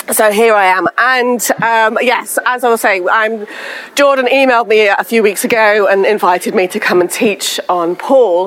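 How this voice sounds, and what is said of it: Husky, slightly hoarse voice. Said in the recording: “Houston allergies have not been kind to me, so I sound a little bit husky”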